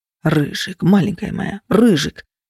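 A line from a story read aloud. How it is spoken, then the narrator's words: Whisper in ear. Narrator (Russian): шепот на ухо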